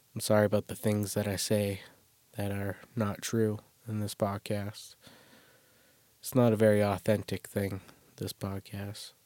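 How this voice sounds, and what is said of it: Rough, sick-sounding voice. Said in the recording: “sorry about my voice coming off of a cold”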